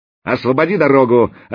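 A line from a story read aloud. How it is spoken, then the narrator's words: Shouting. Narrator (Russian): опять крикнул Заточка, шедший впереди вместе с Волей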